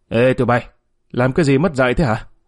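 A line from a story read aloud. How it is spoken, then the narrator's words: Shouting down. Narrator (Vietnamese): Thanh quát xuống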